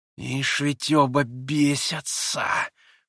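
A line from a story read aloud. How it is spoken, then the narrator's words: Surprised hiss. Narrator (Russian): прошипел Ракитин, с удивлением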